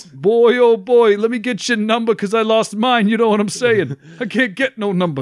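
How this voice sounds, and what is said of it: Exaggerated put-on New York accent. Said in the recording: “My New York accent gets more and more just a terrible impersonation of Rodney Dangerfield”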